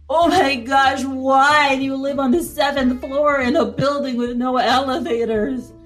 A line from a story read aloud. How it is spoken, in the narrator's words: He moaned aloud